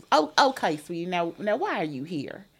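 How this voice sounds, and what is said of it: Deep Southern drawl imitation. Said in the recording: “She was had a really deep southern drawl.”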